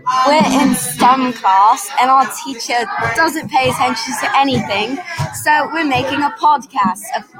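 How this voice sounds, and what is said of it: Put-on British accent. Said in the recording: “I'm definitely British, and this is not a fake accent”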